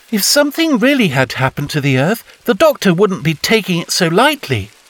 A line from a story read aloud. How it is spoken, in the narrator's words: Polly said firmly